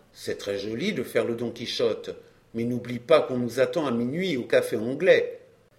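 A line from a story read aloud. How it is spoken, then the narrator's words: Whispered. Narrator (French): l'ami dit tout bas à Julien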